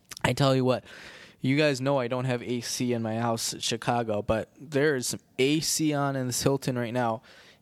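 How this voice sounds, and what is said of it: Midwestern American accent. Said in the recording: “people always make fun of the way I say sorry because of my Midwestern accent.”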